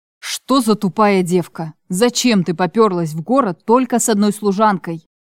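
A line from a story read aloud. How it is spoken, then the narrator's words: Growled in face. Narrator (Russian): Прорычал мне в лицо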